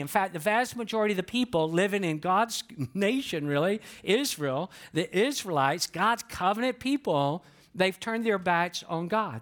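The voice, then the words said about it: Southern US accent. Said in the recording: “some of you can tell by my accent that I'm not from the Northeast ... you suspect that I was born and raised, in the South just based on how I talk”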